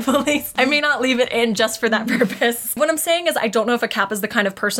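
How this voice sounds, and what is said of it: Usual voice. Nothing is said of it.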